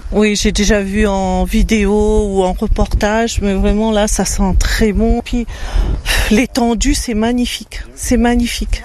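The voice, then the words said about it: Slight Réunion French accent. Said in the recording (French): “Je sens un petit accent là. ... La Réunion.”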